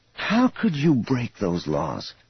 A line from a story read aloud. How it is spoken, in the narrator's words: Thraken sighed wearily